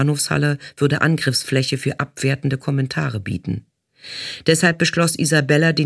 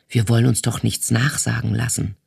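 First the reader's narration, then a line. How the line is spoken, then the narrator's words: Whispered. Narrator (German): flüsterte sie Isabella zu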